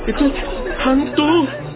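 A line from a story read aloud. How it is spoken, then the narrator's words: Terrified screaming. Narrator (Indonesian): berteriak-teriak karena takut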